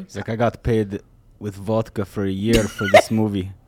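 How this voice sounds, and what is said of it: Put-on Russian accent. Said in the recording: “You hear the Russian accent? ... It's pretty good. ... It's pretty damn good.”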